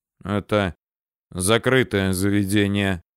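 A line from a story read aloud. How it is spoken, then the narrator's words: Gloomy bearded man. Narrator (Russian): мрачно заявил бородач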